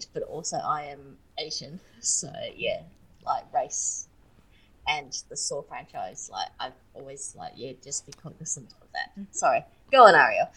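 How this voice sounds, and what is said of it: Australian accent. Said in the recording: “I'm Australian, obviously from my accent”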